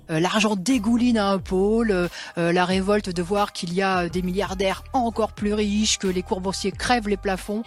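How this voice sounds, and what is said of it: Working-class Parisian accent. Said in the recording (French): “Nathalie Arthaud n'a pas gommé son accent. Bien au contraire, on entend très nettement dans sa façon de prononcer un peu en arrière certaines syllabes des restes de parler populaire parisien.”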